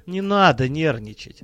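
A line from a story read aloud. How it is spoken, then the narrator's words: Gentle, kind. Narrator (Russian): ласково сказал незваный гость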